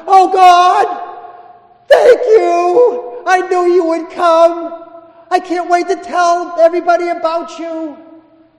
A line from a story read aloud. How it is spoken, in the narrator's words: at the moment of impact, he cries out in a loud voice